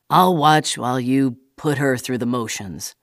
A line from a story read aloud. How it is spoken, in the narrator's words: grunted the officer in a disinterested, almost disrespectful way